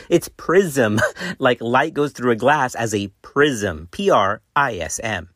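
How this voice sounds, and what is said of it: Hispanic-accented English. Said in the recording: “my Hispanic accent”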